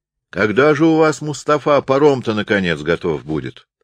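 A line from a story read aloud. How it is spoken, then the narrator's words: Angry shout. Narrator (Russian): сердито крикнул Сударчиков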